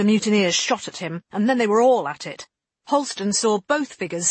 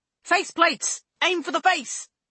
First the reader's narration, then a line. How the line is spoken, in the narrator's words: Scholes shouted